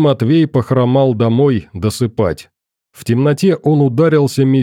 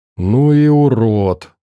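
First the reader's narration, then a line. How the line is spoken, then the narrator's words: Crowd sighing. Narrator (Russian): вздохнули собравшиеся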